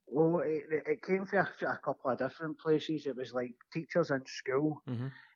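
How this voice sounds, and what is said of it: Glaswegian Scottish accent. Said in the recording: “my accent ... Obviously, you're from Glasgow as well”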